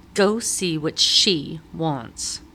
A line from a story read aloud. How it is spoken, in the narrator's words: spat